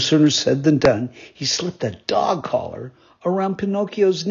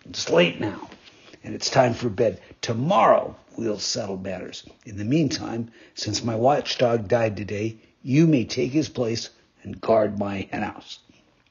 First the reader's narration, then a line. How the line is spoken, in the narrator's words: said to him roughly